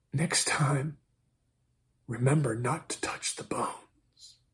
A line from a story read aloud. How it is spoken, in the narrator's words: She whispered